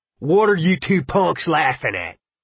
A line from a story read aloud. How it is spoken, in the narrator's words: Ralph roared